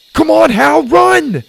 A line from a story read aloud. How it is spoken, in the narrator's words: Jack shouted